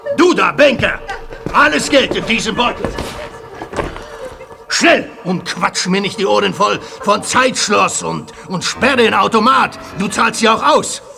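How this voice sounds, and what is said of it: Polish accent in German. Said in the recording (German): “Polnischer Akzent, würde ich sagen.”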